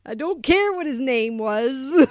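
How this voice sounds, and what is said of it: Old man voice. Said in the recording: “Nice old man voice.”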